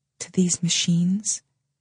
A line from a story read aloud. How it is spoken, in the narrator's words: She is whispering, our habit at the center